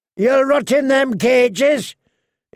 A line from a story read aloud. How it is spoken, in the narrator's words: was shouting